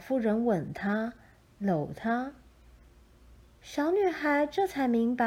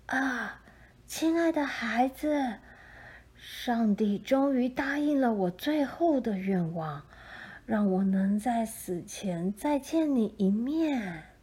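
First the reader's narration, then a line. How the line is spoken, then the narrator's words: Old woman's joyful cry. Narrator (Chinese): 老妇人忽然欢喜地叫出声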